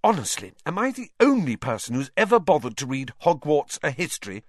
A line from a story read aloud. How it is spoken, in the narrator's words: said Hermione crossly to Harry and Ron